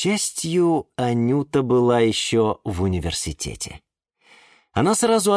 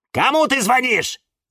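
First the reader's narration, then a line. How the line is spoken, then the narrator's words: Shouting in unison. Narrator (Russian): закричали в один голос Фикус и Валентин и Вениамин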